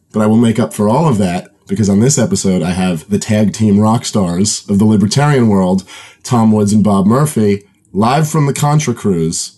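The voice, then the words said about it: Hoarse, strained voice. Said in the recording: “I am losing my voice.”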